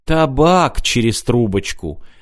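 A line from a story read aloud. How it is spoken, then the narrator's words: Gentle correction. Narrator (Russian): мягко поправил Мартин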